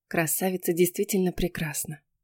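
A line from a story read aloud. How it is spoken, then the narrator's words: Whisper. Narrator (Russian): прошептала Хизер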